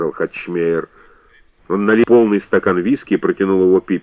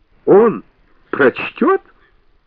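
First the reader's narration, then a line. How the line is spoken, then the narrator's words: Shrill giggle. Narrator (Russian): Бэби издала визгливый смешок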